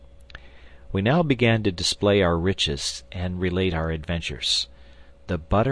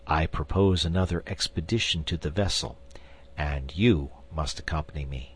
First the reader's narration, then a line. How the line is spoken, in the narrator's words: I added in a low tone, lest I should distress my wife